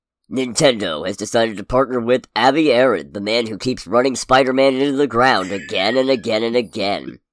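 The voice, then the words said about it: Dramatic movie trailer announcer voice. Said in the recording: “I'm going to try and do my best trailer announcer voice, despite being sick.”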